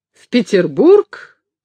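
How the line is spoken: Exclaiming. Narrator (Russian): воскликнул Каютин

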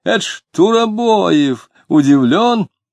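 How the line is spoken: Awkward guffawing proclamation. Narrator (Russian): Дмитрий нелепо захохотал, возглашая

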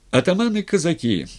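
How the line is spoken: Somewhat solemn. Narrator (Russian): несколько торжественно начал Матвей

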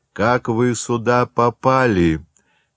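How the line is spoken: Quieter resigned sighing question. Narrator (Russian): спросил человек уже тише и вздохнул, словно подчиняясь необходимости

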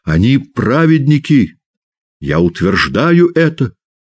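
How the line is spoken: Angry shout. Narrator (Russian): он закричал со злобой неведомо кому

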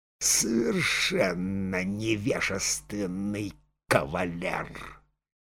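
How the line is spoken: Hissing whisper. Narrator (Russian): Анна Фоминична прошептала шипящим голосом

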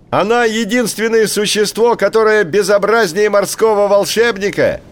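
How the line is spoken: Bird's shout. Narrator (Russian): крикнул большой поморник

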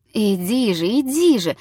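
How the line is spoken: Strained babbling. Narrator (Russian): залепетал он с усилием

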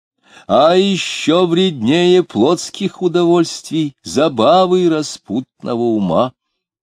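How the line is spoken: Loud speech. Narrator (Russian): громко говорил Диомидов

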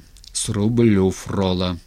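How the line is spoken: Barked. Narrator (Russian): рявкнул Степан, сказал

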